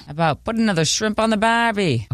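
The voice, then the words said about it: Deliberately bad put-on accent. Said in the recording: “That was a bad impersonation.”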